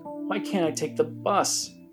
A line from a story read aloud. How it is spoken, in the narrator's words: said, choking back deep sobs